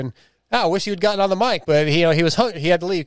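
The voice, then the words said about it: Texas accent. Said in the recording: “It's my Texas accent too.”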